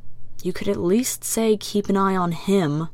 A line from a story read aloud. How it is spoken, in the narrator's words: the prisoner mutters